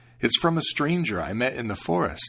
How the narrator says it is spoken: he said

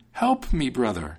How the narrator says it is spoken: cried the soldier

